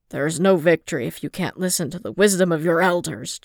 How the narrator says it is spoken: Jin snarled

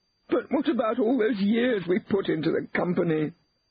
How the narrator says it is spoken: wailed Elizabeth

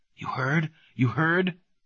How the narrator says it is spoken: excitedly

